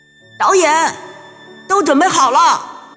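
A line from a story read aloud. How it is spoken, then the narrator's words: Calling out from nearby. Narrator (Chinese): 一位工作人员在不远处喊了一声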